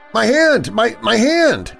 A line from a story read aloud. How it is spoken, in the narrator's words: Alex yelled